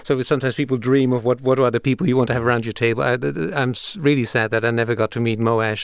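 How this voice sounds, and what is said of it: Non-native foreign accent. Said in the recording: “as you probably can hear from my accent, I come from outside of this country”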